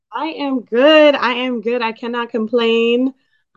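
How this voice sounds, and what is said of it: Slightly raspy voice. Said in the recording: “Voice is a little raspy. I've been doing a little yelling this weekend”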